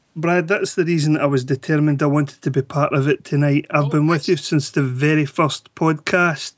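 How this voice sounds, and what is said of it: Scottish accent. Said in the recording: “You lovely ass Scottish accent.”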